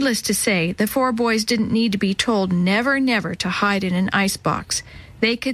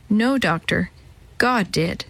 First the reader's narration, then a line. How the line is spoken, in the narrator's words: she replied quietly